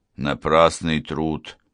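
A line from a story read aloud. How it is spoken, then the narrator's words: Grumbled to himself. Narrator (Russian): ворчал про себя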